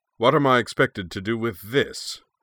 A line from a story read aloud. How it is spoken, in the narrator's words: the commander wanted to know, his voice precisely calibrated so that everyone in the Bird of Prey's mess hall would hear it clearly